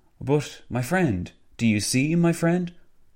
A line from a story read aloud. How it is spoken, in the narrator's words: Venizelos gesticulated and exclaimed when attempting to make a point